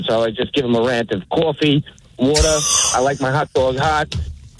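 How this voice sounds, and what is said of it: Strong regional accent. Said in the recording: “people have been busting my chops about my accent out here forever”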